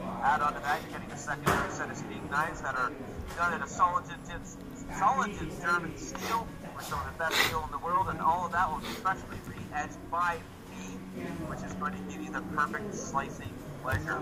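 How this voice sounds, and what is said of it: Polished radio announcer voice. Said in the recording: “that was my radio voice. Was it good? ... That was a good radio voice.”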